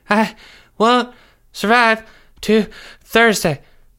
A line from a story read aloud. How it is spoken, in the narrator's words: Jeffrey said through gasps for air